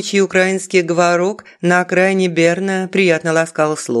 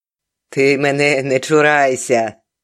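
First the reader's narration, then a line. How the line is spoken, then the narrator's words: Good-natured chuckle. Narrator (Russian): добродушно хохотнула Галя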